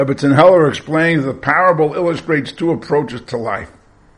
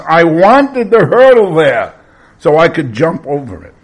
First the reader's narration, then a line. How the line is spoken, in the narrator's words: Gary, frustrated and angry, shouts